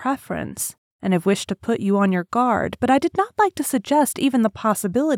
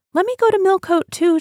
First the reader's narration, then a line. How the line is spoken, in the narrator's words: she cried